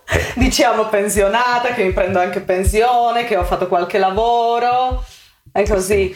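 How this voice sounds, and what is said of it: Slovak accent in Italian. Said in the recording (Italian): “questo accento è un accento... Slovacco”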